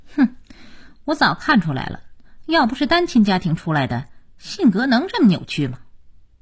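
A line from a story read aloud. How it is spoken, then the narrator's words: Cold sneer. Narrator (Chinese): 佳期冷冷一笑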